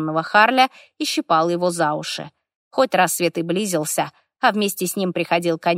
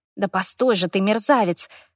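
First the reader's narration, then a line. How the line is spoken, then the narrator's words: Hissing. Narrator (Russian): шипела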